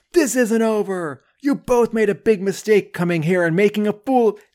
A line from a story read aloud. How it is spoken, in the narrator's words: Xandar from behind them screams